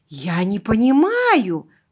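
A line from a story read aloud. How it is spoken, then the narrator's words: Breathless exhale. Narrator (Russian): выдохнула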